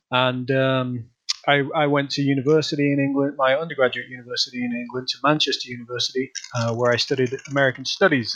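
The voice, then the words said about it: Northern English accent. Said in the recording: “your listeners can probably tell from my bizarre accent, uh, I'm originally from the north of England. I'm from uh, Leeds in the north of England.”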